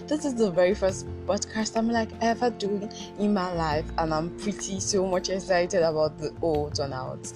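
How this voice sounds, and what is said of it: Rough just-woke-up voice. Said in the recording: “I just woke up this morning ... I know I sound terrible right now, but you all got to just manage my voice.”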